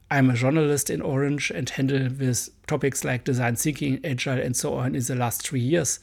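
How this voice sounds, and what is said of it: Strong German accent in English. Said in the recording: “sorry for my hard accent. Again, I'm a German boy.”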